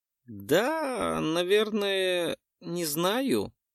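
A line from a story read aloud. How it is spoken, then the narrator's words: Uncertain mumble. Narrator (Russian): неуверенно промямлил тот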